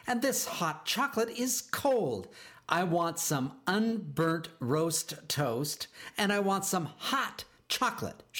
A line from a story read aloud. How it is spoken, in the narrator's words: screeched